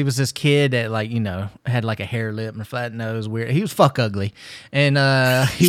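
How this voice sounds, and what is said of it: Usual voice. Nothing is said of it.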